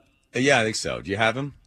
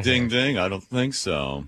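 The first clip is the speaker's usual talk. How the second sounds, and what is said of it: Effeminate cartoon cat character voice. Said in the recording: “very effeminate for Morris the cat ... my Morris the cat imitation”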